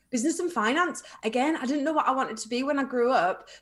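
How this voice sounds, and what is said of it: Slight Northeast English twang. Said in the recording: “I've got kind of a non-accent ... I've probably have got a bit of a Northeast twang ... I thought you were from the Northeast”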